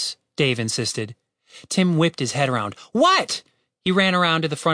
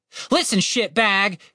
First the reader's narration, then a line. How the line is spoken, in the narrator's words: Tim shouted